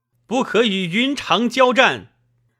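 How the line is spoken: Loud shout. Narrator (Chinese): 一骑……大叫

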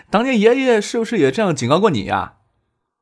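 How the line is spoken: Dark, unrepentant laugh. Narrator (Chinese): 葛英军黑然笑着，根本就没有悔改的意思，说道

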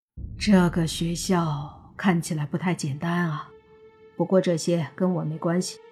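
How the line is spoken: Sighing. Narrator (Chinese): 他又叹了口气说

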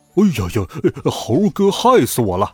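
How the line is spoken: Anxious, through gritted teeth. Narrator (Chinese): 猪八戒急得直咬牙

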